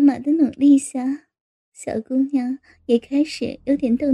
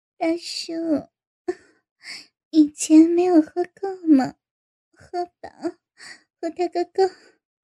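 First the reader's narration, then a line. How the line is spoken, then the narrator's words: Smiling. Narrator (Chinese): 小姑娘 笑笑说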